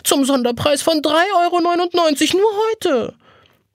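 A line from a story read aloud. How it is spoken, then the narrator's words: Pleading call. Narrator (German): ruft flehend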